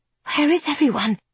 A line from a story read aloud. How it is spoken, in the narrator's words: she whispers to William